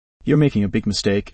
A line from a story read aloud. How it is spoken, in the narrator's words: said, her voice devoid of emotion